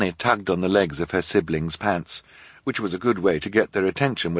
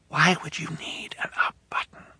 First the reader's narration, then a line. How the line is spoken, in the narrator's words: Violet whispered